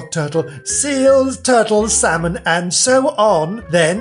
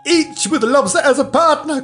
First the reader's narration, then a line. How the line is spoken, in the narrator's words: cried the Gryphon